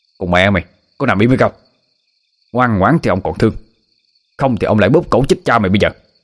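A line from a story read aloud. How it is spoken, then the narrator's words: Harsh growling shout. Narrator (Vietnamese): Hắn ta gằn giọng lên mà quát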